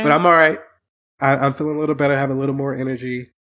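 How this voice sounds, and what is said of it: Down, somber, tired voice. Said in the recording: “my voice sounds kind of down or somber”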